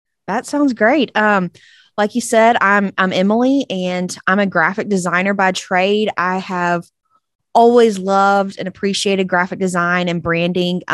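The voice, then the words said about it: Mild East Texas Southern twang. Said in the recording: “From good old East Texas, if you couldn't tell by my twang. ... Little twangy, but not too twangy.”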